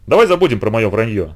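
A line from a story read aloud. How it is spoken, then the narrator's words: Plain. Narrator (Russian): сказал я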